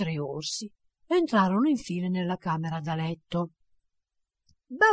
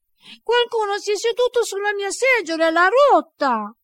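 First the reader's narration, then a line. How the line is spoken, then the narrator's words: Tiny bear's tiny voice. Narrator (Italian): l'orsetto, piccolo piccolo, gridò con la sua voce piccola piccola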